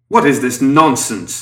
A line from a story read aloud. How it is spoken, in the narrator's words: Herman shouted